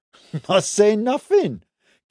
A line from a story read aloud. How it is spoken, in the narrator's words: Kid said, stifling a laugh